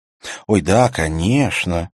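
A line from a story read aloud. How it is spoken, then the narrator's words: Lisping, gloating. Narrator (Russian): прошепелявил Брюн, наслаждаясь неловкостью Хольма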